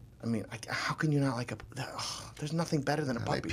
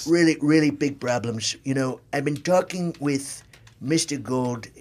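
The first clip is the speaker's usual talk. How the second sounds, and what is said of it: Donald Trump impression. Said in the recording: “one Donald Trump impersonation”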